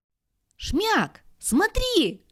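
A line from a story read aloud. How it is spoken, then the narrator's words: Shout. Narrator (Russian): крикнула Плюша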